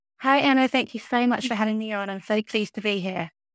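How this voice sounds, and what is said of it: British accent. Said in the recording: “she's from the United Kingdom and has that lovely UK accent.”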